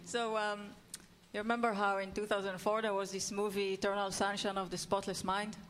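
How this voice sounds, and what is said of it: Israeli accent. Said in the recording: “it's Israeli accent.”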